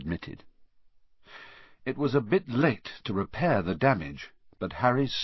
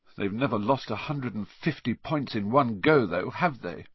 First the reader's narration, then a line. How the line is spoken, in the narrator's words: said Harry miserably